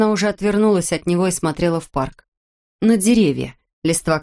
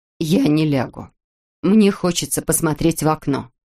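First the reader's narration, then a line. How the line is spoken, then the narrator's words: Firm voice. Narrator (Russian): Нина твердым голосом сказала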